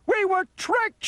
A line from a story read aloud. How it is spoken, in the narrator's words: shouted Shorty and Slim